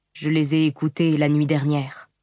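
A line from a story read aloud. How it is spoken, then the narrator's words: Buzzing, overexcited, muffled. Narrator (French): déclara Motif d'une voix bourdonnante et surexcitée depuis le dos de sa robe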